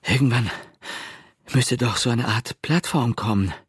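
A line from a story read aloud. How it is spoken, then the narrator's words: Breathless. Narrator (German): brachte Pete nach einer Weile atemlos hervor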